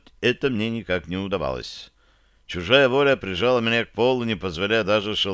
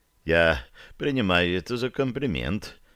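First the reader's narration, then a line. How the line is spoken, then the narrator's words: Strained mutter. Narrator (Russian): пробормотал я, силясь встать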